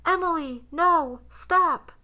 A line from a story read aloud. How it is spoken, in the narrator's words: a loud male voice yelling